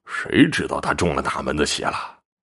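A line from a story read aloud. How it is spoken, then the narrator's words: Indistinct muttering. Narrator (Chinese): 不停的嘀咕着，说些什么也听不清楚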